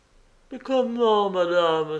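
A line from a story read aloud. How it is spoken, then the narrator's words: Exclaiming. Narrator (French): s'écria la femme de charge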